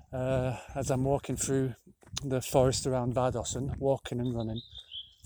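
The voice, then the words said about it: Slightly out of breath. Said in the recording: “you can hear me, I'm slightly out of breath.”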